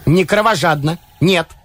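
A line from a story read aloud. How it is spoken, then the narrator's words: Sharp objection. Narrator (Russian): резко возразила она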